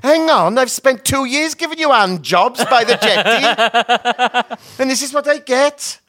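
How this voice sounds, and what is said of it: Put-on Welsh accent. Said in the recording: “my best Welsh impression ... I think it's very good. It's better than hers.”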